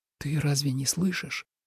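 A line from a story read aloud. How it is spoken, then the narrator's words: Whispered question. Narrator (Russian): шепотом спросил Тобиас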